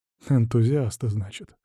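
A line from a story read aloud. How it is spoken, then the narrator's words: Snorting. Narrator (Russian): хмыкнул Дементьев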